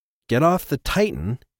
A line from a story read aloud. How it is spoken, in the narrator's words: O'Shea said anxiously